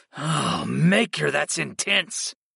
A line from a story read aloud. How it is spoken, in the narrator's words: I groaned